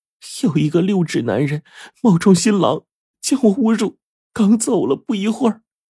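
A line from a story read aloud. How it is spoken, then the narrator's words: Bursting into sobs. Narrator (Chinese): 新娘听了这话，脸色唰的一下惨白呀，突然放声大哭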